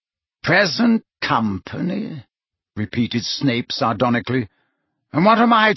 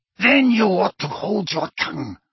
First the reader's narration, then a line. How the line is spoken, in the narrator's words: snarled Bellatrix